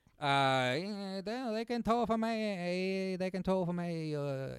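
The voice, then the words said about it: Heavy put-on Chinese accent. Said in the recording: “in a heavy Chinese accent”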